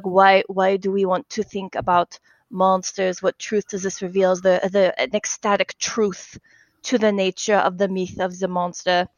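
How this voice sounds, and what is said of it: Poor Werner Herzog accent impression. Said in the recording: “My accent's terrible, sorry.”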